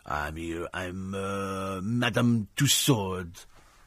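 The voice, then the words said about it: Put-on French accent. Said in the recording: “Only she would have done it with a French accent.”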